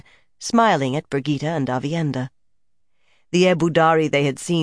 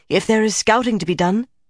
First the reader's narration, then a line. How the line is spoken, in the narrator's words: Avienda put in eagerly